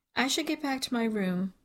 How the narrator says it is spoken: Jesse says with a tiny yawn

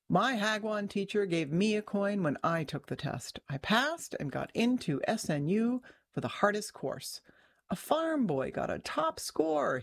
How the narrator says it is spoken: said, laughing

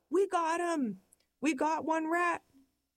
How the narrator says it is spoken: We're hyperventilating, we yell

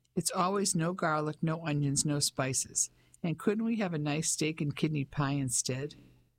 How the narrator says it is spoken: Ellie laughed

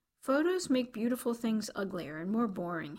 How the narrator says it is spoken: said

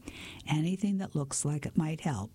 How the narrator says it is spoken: replied Stephen

